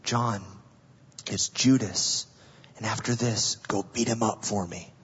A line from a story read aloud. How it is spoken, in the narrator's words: Jesus didn't whisper